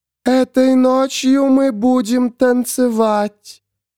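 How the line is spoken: High, mindless creature voice. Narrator (Russian): сказало существо высоким голосом, без малейшего признака разума

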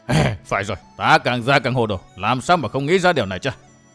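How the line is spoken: Sudden realization, muttering. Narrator (Vietnamese): Thần toán đồng tàu giả thực vừa nghe vậy bèn sực tỉnh, lẩm bẩm

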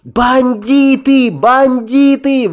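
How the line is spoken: Continuous screaming. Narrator (Russian): вопила она, не переставая

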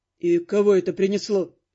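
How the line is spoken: Grim question. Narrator (Russian): спросил Дорс мрачно

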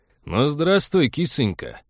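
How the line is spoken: Cheerful bellow, fat man. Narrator (Russian): весело гаркнул толстяк

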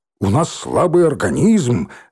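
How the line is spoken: Deep bass bark. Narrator (Russian): рявкнул басом Лохматый

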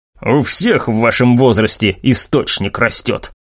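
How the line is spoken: Irritated mutter. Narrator (Russian): раздраженно буркнул Лукас

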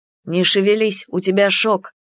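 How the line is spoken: Stern man. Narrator (Russian): строго проговорил мужчина

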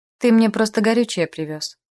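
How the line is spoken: Cold retort. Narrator (Russian): холодно парировала

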